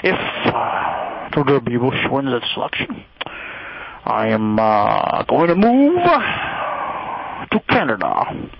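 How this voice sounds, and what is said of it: Alec Baldwin impression, old newsman cartoonish. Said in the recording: “my Alec Baldwin impression ... it's sort of that old news guy combined with like a Warner Brothers cartoon”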